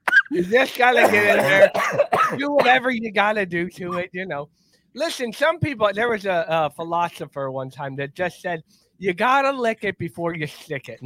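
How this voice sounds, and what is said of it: Imitates another person's voice. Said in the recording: “that's what I live by as Lou Holtz ... that's how you do a voice when people ask for it”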